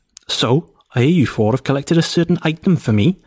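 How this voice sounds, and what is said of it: Put-on Welsh-ish character voice. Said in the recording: “This is going to be Boris the Irish. ... I think he's Welsh. ... He's clearly Welsh-sounding, sort of. ... I don't think my accent was that bad.”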